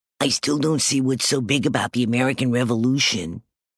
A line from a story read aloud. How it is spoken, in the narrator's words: mumbled Stink